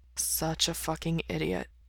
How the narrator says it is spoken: he mutters

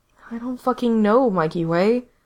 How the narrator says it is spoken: Gerard said wearily

